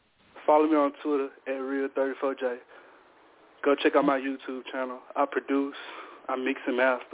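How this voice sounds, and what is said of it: Breathless, out of breath voice. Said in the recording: “Why you sound like long breath? ... Why you sound like you out of breath?”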